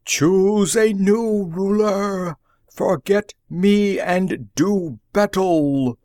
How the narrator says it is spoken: the chief roared

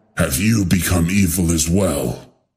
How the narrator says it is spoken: Kente growled

